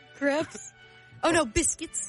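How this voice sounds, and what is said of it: Bad fake British accent. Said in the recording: “Our accents suck. ... Y'all tied for the worst British accent. ... Blimey, that was dreadful.”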